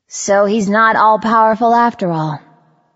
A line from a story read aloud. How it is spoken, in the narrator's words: I sighed